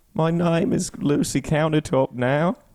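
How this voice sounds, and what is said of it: Imitates a TV character's voice. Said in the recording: “my impression of Lucy from your show”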